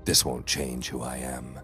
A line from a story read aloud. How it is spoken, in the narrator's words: I said quietly